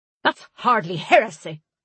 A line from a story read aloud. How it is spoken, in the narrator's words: Tallow spat